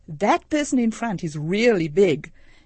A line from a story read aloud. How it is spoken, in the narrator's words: a teenager, quite a large young man, commented loudly